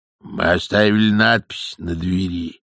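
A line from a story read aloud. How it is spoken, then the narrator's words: Grumbled. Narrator (Russian): пробурчал он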